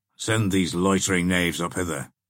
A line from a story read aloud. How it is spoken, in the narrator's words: said the Saxon impatiently